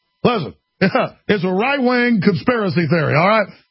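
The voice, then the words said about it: Weak Barack Obama impression. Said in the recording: “I can't do a good Obama accent, but I'm quoting Obama right now.”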